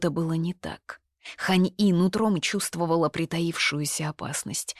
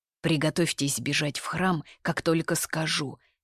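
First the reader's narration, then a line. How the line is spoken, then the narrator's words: Whisper. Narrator (Russian): лишь прошептал он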